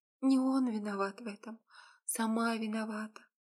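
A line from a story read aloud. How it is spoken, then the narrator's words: Soft whisper. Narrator (Russian): прошептала тихонько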